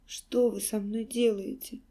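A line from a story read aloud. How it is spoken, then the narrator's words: Hoarse question. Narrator (Russian): хрипло спросила Алиса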